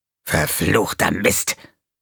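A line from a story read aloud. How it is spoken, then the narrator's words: Hissing angrily. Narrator (German): fauchte er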